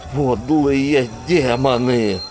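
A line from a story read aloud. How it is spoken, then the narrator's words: Groaning high priest. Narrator (Russian): застонал главный жрец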